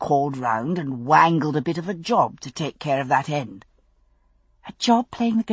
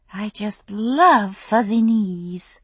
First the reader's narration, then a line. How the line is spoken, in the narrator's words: Gail said dreamily